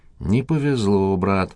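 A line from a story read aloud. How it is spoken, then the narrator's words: Sighing. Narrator (Russian): вздохнул он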